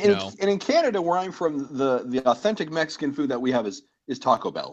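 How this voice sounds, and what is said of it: Usual voice. Nothing is said of it.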